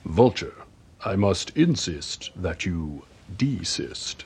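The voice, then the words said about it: Impression of Captain Holt. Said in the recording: “that Holt impression”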